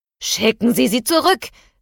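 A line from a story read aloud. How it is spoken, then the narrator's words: Angry shout. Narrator (German): rief Victor wütend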